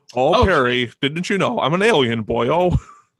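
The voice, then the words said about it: Homer Simpson-like cartoon voice. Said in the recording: “dangerously close to original Homer Simpson impersonation.”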